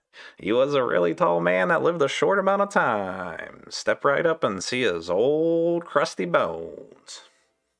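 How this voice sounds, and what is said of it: Old-timey 1920s announcer voice. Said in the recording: “your 1920s voice, my best impression of it”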